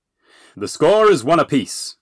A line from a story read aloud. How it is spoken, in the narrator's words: Little John boomed